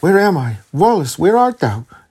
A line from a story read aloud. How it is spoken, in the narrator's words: starting in affright, she exclaimed